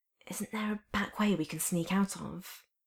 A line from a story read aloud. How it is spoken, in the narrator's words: whispered